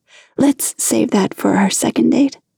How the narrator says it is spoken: Pariah said gently

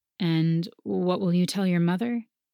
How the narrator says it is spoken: he asked nervously

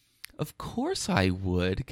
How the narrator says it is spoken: Kay says sweetly

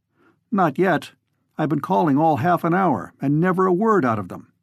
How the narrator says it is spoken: he said curtly

